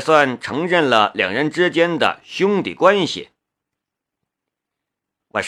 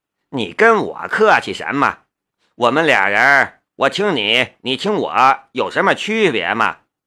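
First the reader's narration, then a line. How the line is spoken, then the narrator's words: Laughing. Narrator (Chinese): 夏雷笑了两声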